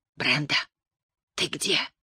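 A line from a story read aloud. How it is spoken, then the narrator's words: Hoarse whispered call. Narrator (Russian): позвал Дуарто хриплым шепотом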